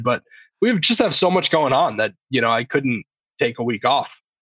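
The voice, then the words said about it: Congested, slightly nasal voice. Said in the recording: “Got a little case of the COVID ... You can probably hear it in my voice a little bit congested”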